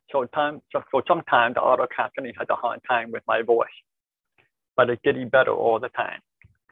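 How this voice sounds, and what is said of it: Deaf accent. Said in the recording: “I have a pretty significant deaf accent”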